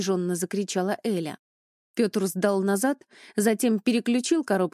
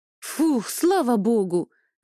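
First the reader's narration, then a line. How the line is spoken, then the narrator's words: Exclaiming. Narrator (Russian): воскликнула Эля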